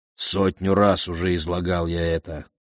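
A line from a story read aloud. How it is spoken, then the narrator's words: Grumbling mutter. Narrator (Russian): пробурчал Антимет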